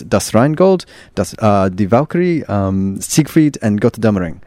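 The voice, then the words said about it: Put-on German accent. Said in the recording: “That's the best German accent I can do.”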